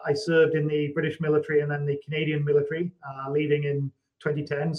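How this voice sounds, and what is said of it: Non-local, likely British accent. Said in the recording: “from my accent, you can probably gather I wasn't I wasn't I'm not an Ottawa native.”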